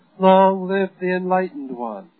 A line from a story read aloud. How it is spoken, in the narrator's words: Meng Jiangyu called out thrice